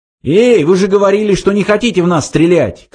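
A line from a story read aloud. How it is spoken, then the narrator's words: Shouting. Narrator (Russian): крикнул он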